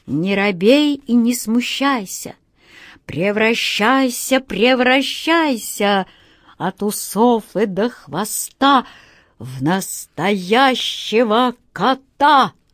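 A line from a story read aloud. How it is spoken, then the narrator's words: Loud recitation. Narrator (Russian): волшебник Алёша громко прочел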